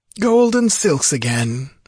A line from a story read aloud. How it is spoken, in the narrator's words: he sighed